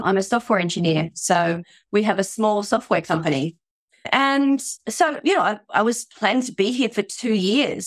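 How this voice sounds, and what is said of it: Australian-accented English. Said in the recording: “by my accent, you can tell I'm not Japanese. ... I'm Australian”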